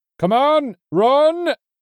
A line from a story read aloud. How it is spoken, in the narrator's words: Hagen shouted again